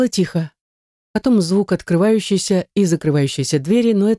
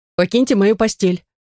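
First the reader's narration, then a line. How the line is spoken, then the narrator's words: Stern demand. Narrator (Russian): требую я строго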